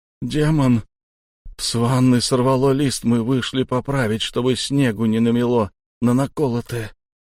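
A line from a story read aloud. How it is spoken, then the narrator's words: Lost, dazed voice. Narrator (Russian): Потерянным голосом заговорил Шон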